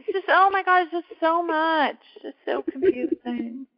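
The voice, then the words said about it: High-pitched voice. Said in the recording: “in a high voice.”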